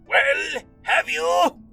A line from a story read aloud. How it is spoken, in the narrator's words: insisted the voice, which was so raspy that it made you want to clear your own throat